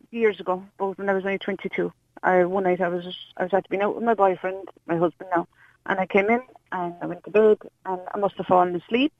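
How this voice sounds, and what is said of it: Scottish accent. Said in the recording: “Scottish accent, by the way.”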